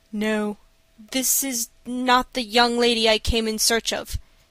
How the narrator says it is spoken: replied, in a strained voice

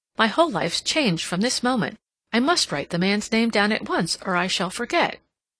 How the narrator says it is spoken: Cassandra exclaimed

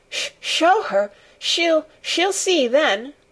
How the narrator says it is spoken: he gasped out between two sobs

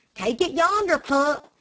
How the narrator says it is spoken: Dick replied exclaiming

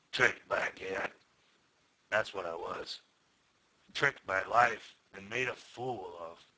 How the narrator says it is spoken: he said in a low voice

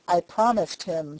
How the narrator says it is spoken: said he

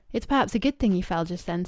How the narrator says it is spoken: said Louis

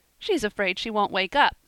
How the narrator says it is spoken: said Percy, laughing

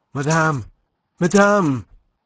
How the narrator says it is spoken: he panted out of breath

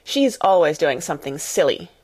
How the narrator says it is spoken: snapped Lavinia

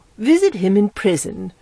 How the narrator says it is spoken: she said indignantly

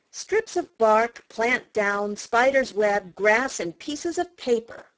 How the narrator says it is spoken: replied Jenny

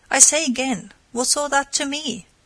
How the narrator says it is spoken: she exclaimed

